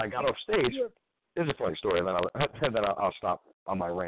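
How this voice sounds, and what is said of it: Usual voice. Nothing is said of it.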